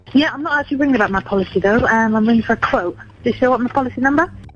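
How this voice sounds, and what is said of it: Typical British accent. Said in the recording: “Sounds like a typical British accent, right?”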